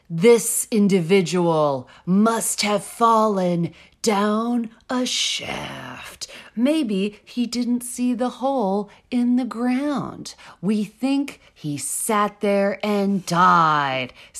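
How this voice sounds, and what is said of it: Dramatic, theatrical reading. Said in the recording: “I can't do an Italian accent, but I can do a dramatic rendition of this”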